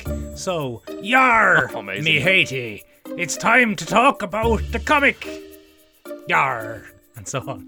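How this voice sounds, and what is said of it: Old-timey pirate accent. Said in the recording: “I'm going to provide this week's commentary on the comic in the style of the comic... I'm an old-timey pirate... that's Mullingar by way of the sea”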